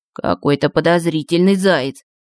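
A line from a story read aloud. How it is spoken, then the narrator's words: Muttered. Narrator (Russian): пробормотал Иванушка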